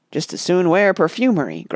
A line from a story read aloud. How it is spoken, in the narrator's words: grunted a DeLacy